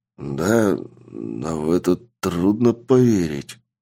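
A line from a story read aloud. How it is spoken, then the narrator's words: Nervous mutter. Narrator (Russian): пробормотал человек, чья психика держалась на волоске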